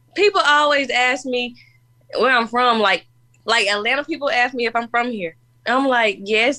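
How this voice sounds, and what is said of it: Country-tinged accent. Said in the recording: “little country girl in there somewhere ... Absolutely love your accent.”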